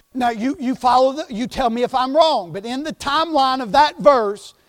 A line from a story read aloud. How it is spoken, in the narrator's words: they shout